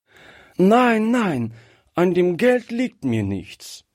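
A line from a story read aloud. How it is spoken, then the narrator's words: Call. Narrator (German): rief Gretchen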